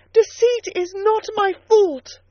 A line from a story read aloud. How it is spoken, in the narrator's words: I cried out in a savage high voice